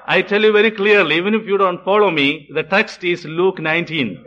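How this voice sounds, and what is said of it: Speaks with a noticeable accent. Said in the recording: “some of you have problems with my accent.”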